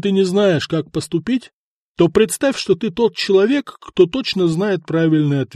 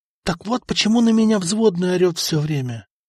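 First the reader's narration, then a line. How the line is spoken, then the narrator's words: Whisper of sudden realization. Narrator (Russian): прошептал Берислав, который внезапно все осознал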